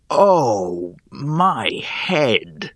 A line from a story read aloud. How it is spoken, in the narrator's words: I grumbled